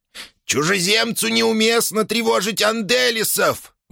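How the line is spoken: Shrill squeal. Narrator (Russian): взвизгнул Сибилла

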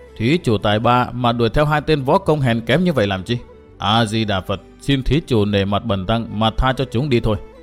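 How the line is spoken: Cold, contemptuous monk. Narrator (Vietnamese): Hòa thượng mặt vàng đứng bên trái tỏ vẻ khinh thường, lạnh lùng nói

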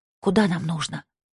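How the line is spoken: Whisper. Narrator (Russian): прошептала она

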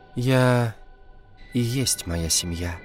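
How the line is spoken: Sad sigh. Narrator (Russian): грустно вздохнула девушка

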